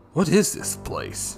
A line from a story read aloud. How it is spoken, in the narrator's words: Clint mumbled